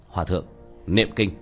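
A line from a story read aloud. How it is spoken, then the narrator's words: Low sharp command. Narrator (Vietnamese): Tiểu Thất quát khẽ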